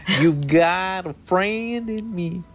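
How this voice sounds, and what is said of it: Imitates another person's singing voice. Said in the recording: “I love trying to impersonate Randy Newman.”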